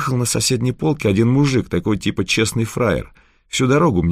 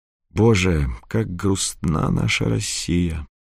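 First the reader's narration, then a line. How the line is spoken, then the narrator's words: Sighing. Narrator (Russian): вздохнул Федор Семенович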